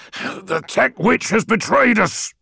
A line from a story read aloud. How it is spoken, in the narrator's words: snarled Ekadon